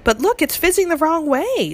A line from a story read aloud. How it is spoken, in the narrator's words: Sophie cried